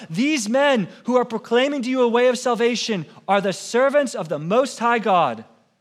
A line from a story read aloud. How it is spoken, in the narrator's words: she cried out